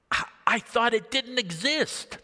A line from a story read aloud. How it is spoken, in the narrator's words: the warden gasped when he saw the key